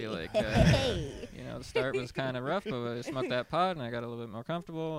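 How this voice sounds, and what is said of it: Speaks with a noticeable accent. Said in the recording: “I hope my accent isn't too weird. ... No, your accent is fine.”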